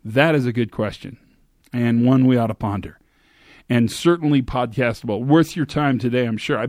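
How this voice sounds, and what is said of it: Tired-sounding voice. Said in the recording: “I'm a little tired. You can probably hear it in my voice”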